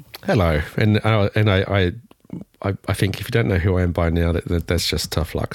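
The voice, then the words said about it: Voice affected by a cold. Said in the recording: “excuse my voice today, I'm getting over a cold”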